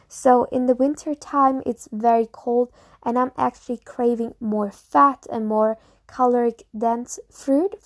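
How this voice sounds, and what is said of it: German accent in English. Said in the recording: “I'm from Germany, maybe you noticed from my accent”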